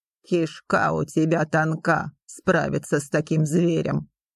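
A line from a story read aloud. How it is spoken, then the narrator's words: Rough, laughing. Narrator (Russian): грубо рассмеялся Филипп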